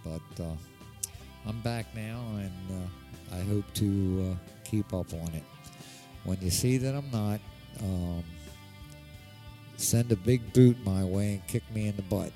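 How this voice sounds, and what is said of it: Nasal Baltimore accent. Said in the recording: “I can't do too well with this Baltimore nasal twang”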